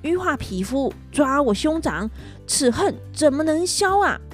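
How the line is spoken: Shouting. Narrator (Chinese): 他们两个大声的叫着

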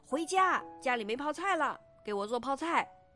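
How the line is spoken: Angry shouting. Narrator (Chinese): 武赫回到家里发现没有泡菜，就非常生气的大声喊道

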